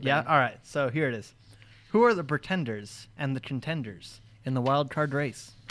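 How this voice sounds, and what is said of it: Flat robotic-sounding voice. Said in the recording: “talking like a robot,”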